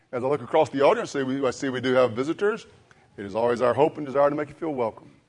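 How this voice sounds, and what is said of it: Slightly scratchy, recovering voice. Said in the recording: “My voice is still a little scratchy. As you know, I lost my voice”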